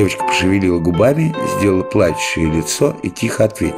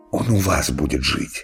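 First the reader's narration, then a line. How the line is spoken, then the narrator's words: Whispering. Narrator (Russian): шептал в зале Иван Иванович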